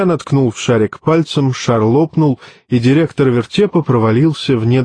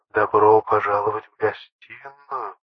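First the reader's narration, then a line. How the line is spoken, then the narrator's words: Soft baritone whisper, close. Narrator (Russian): шепнул над ухом мягкий баритон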